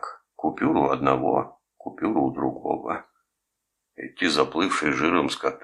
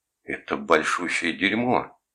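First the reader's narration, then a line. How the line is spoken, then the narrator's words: Angry outburst. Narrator (Russian): зло выпалил Томас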